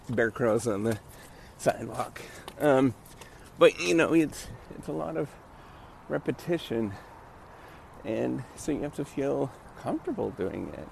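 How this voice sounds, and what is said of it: Choppy, breathless voice while exercising. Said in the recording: “I'm doing bear crawls, by the way, so my, my voice is kind of choppy.”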